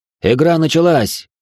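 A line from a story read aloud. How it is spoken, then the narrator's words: Shouting. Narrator (Russian): крикнул Дэн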